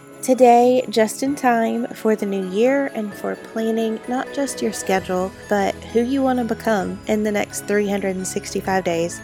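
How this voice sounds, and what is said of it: Sick, strained voice. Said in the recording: “Please pardon the voice. It's that time of year when all of the really fun germs are traveling around”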